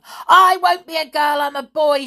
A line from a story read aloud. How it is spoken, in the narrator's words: shouted George